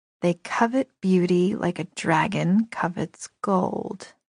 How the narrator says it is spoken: I murmured

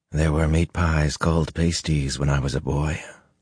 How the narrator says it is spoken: Luce Theron murmured

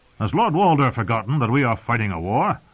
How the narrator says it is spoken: Brendan Blackfish asked sharply

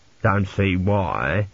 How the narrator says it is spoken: grumbled an elderly priest

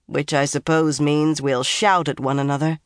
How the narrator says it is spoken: Swan said dryly

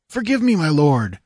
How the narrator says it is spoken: cried, springing to his feet

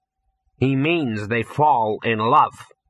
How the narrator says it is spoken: said Ginger coldly

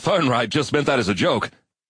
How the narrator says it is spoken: Harper Baldwin said nervously

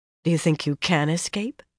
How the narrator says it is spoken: she asked quietly

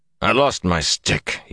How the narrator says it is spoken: he muttered

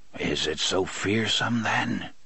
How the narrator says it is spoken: Court muttered, as if in his sleep

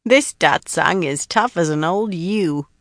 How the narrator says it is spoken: Belinda cackled

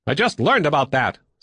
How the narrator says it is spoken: Sal snapped back

